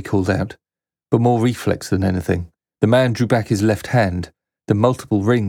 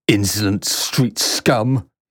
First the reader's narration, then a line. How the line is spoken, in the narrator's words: spat